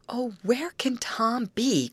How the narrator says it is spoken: cried Betty anxiously

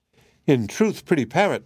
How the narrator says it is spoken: cried the princess

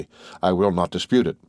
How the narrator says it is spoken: replied Morel gaily

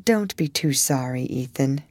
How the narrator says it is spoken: Maddie said in a low voice

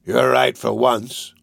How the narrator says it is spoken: replied Sykes gruffly

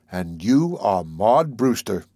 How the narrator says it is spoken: I said solemnly

